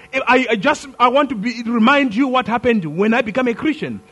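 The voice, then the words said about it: Non-native foreign accent. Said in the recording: “preach to you with a different accent”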